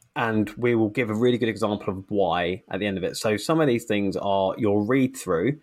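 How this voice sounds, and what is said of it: Usual voice. Nothing is said of it.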